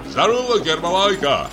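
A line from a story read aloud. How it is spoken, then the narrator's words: Shouted. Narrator (Russian): крикнул ему Самойленко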